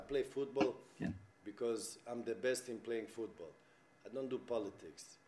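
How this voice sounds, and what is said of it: Swedish accent in English. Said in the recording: “He's a Swedish soccer star... Because of the accent”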